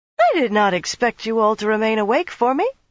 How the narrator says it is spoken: she said brightly

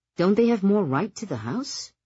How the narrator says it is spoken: Nick sighed

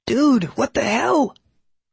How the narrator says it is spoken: squealed in a voice a couple of octaves above his prior register

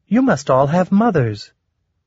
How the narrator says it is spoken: In a merry young voice, Soulcatcher observed

